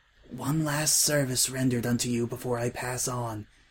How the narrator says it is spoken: he whispered

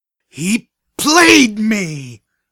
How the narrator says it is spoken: I screamed at the walls of my suite

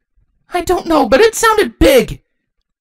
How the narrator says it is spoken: Twilight exclaimed

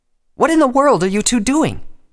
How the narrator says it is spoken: Twilight asked angrily

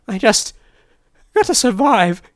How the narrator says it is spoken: she whimpered as tears ran down her cheeks

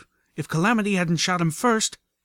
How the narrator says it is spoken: Velvet cried out as she ran for her life

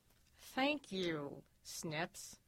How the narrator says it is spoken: he said through gritted teeth

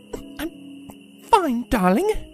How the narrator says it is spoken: Rarity muttered, biting her lip

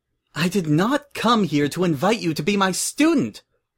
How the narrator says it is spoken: Twilight cried

